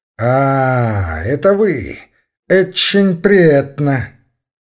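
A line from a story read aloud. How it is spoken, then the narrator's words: Affected, mannered, pretentious tone. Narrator (Russian): Он всегда говорил таким ломаным, вычурным тоном, подражая, как он сам думал, гвардейской золотой молодежи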